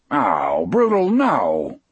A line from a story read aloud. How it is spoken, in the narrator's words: Dean exclaimed